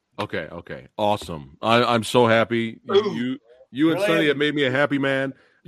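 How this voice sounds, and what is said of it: Strained, nearly lost voice. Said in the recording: “I was screaming over here. My voice is almost gone”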